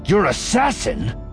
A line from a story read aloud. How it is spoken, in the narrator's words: Voss snapped